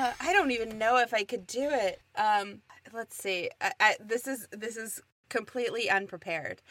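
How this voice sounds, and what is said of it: Usual voice. Nothing is said of it.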